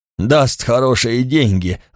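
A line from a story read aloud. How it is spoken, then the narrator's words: Loud guffaw. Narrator (Russian): Рагнар захохотал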